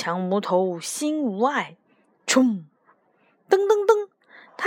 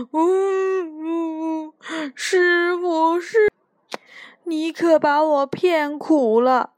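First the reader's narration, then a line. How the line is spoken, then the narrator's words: Drawn-out wailing. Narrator (Chinese): 他拉长了声音哭了起来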